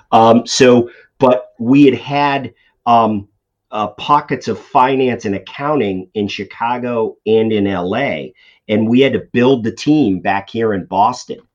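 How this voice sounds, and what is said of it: Boston accent. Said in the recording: “if you can tell by my accent, I'm from the Boston area”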